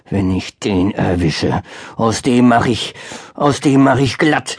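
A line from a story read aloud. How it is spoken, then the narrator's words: Growling. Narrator (German): knurrte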